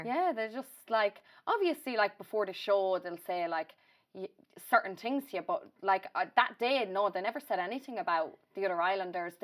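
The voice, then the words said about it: Irish accent. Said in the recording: “you were an Irish girl. We could tell from your accent”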